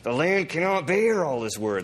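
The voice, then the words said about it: Bad Jack Nicholson impression. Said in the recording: “a really bad Jack Nicholson impersonation”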